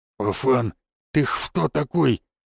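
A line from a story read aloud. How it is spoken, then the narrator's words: Lisping voice. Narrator (Russian): прошепелявил боец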